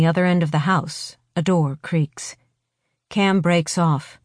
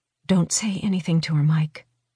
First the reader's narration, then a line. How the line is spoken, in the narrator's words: she says in a low voice